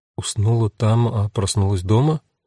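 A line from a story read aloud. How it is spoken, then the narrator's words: Confused questioning. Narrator (Russian): растерянно переспросила Жанна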